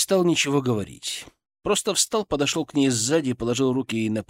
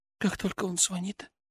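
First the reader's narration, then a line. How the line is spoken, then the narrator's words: Nearly silent. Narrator (Russian): Тихо, почти беззвучно сказала она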